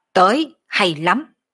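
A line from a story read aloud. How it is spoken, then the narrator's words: Fearless loud shout. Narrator (Vietnamese): Đoàn Thiên Tùng không chút kinh hoảng quát lớn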